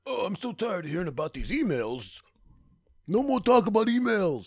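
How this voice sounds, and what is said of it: Imitates another person's voice, poorly. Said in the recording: “A very bad Bernie impersonator.”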